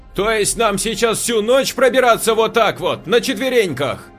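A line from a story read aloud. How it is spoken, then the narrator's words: Shouted. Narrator (Russian): крикнула Катя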